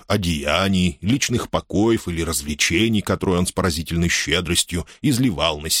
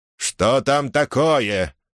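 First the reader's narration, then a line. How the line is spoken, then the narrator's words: Irritated question. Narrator (Russian): раздраженно спросил епископ, поскольку из-за внезапной остановки вино пролилось на его облачение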